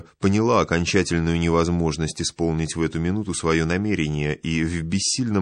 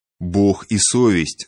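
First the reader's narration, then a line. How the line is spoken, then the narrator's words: Stern old woman. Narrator (Russian): строго проговорила старуха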